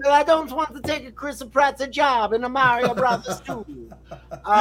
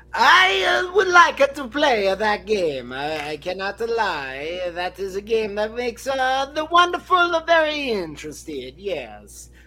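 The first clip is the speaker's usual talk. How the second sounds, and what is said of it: Put-on Italian accent. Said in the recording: “I am going to stop with the Italian accent now.”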